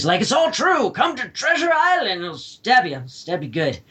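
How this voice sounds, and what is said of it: Tim Curry impression. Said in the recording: “That was Tim Curry, which was my best Tim Curry impression.”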